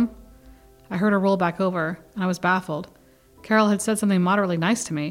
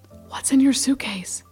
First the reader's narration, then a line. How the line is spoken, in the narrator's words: Emboldened by my success with Carol, I whispered across the room